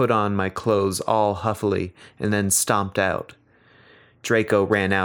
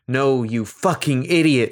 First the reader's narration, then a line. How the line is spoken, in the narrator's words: shouted